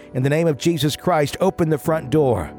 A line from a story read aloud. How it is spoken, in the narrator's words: My aunt ran to the front door and yelled